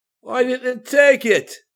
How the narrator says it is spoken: Karis yelled

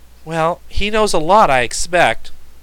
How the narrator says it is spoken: soberly answered the boy

